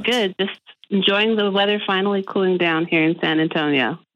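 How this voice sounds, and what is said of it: Slightly congested voice from a cold. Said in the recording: “I have a little bit of a cold.”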